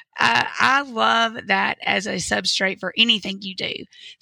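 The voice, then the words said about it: Southern drawl. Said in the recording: “my southern drawl”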